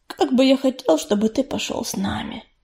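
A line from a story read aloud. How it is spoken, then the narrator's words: Quiet. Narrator (Russian): негромко сказал он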